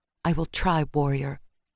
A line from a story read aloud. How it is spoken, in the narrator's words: answered tightly